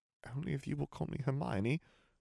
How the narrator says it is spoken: said weakly

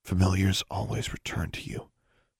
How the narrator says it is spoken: she murmured softly

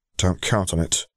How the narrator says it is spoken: Zeb muttered darkly

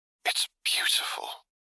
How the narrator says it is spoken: his Padawan breathes raspily

